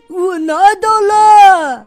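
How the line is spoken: Shrieking. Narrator (Chinese): 一个声音尖叫起来

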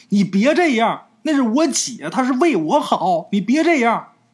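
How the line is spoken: Shouting into empty air. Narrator (Chinese): 鬼友他小姨就对着空气呀就喊

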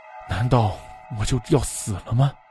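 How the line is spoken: Resigned sigh. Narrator (Chinese): 忍不住叹了口气

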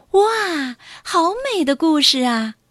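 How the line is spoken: Amazed praise. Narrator (Chinese): 小黄鸟老师读完以后，惊讶的赞叹

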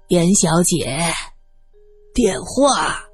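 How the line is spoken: Hoarse female voice. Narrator (Chinese): 一个沙哑的女声响了起来

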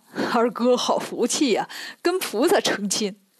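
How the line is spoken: Laughing. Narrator (Chinese): 沙僧笑着说

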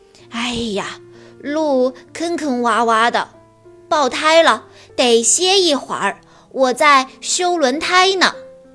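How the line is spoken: Sighing. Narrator (Chinese): 豪华轿车……叹着气说

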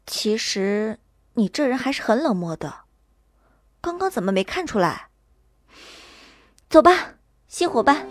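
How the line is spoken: Sigh, flat tone. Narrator (Chinese): 我叹了口气，淡淡道

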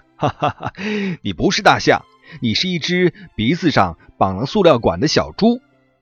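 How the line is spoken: Laughing. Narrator (Chinese): 袋鼠大笑说

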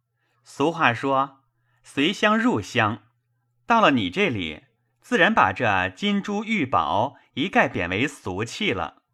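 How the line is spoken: Laughing. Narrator (Chinese): 宝玉笑道

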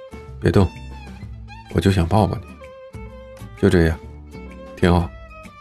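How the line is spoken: Tender murmur. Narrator (Chinese): 他闭着眼喃喃的说

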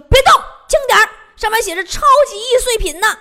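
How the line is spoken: Shouting. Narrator (Chinese): 小哥大喊一声

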